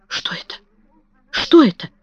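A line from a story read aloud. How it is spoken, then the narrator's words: Whisper. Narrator (Russian): прошептала миссис Ленокс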